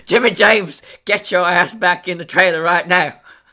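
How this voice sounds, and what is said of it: Put-on redneck Southern accent. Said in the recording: “That feels like such a redneck name ... I don't know why I derive so much joy out of that accent.”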